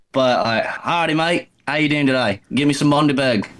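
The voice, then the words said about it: Poor put-on Australian accent. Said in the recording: “Do you have an Australian accent? ... It's bad”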